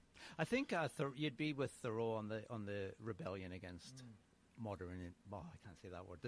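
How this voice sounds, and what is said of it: Scottish accent. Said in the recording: “That's a Scottish accent. ... It's close though. The accent is close, ... especially when you've been away for 30 years”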